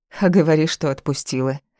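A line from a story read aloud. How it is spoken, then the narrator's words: Scoffing snort. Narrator (Russian): хмыкнула она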